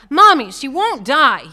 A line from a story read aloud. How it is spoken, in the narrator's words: he yelled